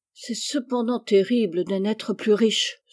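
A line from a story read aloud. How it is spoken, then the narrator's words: Sighing. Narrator (French): soupira Meg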